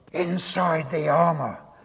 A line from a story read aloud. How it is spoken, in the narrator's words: Spurgeon is reputed to have said in a loud whisper